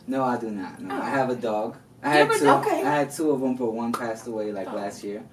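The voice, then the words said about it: New York Dominican accent. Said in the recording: “I'm Dominican, so my accent kind of comes out ... The New York Dominican”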